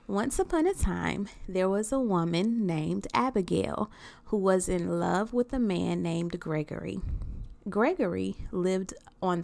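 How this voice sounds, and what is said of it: Storytelling reading voice. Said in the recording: “put on my reading voice.”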